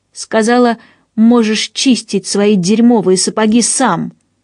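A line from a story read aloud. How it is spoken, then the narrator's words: Shouted right in face. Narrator (Russian): Роза выкрикнула эти слова ему прямо в лицо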